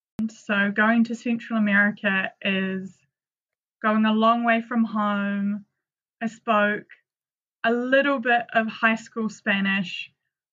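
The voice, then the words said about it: New Zealand accent. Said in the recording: “for those of you listening wondering my accent, I'm from New Zealand”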